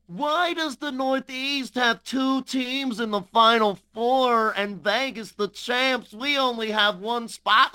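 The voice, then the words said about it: Imitates another person's voice. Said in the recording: “I'm hearing somebody. Let me channel it. ... It's that voice you hate, Matt.”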